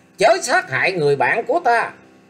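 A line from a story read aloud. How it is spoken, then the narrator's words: Loud shout from above. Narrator (Vietnamese): tiếng người quát to lên rằng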